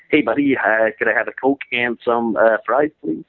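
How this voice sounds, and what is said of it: Convincing put-on American accent. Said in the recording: “you do a mean American accent ... try and pass for American”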